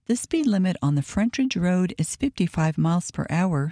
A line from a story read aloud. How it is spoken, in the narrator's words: said